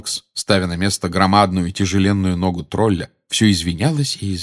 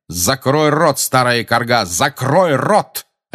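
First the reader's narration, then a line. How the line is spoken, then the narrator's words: Angry bark. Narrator (Russian): рявкнул он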